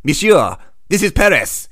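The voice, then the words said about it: Put-on French accent. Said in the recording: “my flawless French accent”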